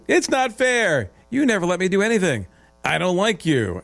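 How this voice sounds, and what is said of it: Whiny childlike voice. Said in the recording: “I can do it in a whiny voice, too.”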